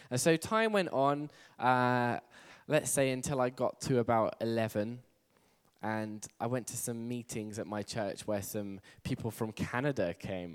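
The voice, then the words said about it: English accent. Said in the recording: “I'm from England, by the way. Who couldn't tell by the accent? ... Who couldn't tell that I was English? ... I'm very keen to keep my English accent”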